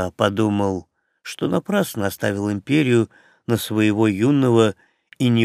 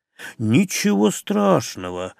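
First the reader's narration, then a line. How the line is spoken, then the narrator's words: Cheerfully dismissive. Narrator (Russian): радостно отмахнулся Джаред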